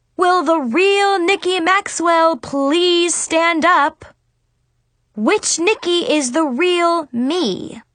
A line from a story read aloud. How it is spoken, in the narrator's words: I wanted to scream